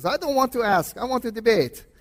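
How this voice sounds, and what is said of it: Imitated Middle Eastern accent. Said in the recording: “in his Middle Eastern accent, I can't do it very well”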